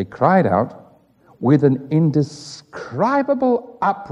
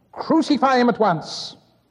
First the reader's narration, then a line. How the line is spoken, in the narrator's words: they again cried